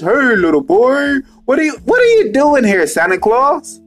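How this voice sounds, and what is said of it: Put-on Santa Claus voice. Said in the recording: “he used to try to put on a Santa Claus voice.”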